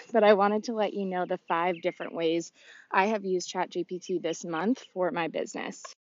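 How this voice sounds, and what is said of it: Out of breath while talking. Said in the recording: “if I sound out of breath, it's because I'm walking”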